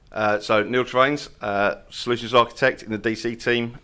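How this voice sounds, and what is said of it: Scottish accent. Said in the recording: “I actually come from Paisley in Scotland, but obviously, as you can tell that by the accent.”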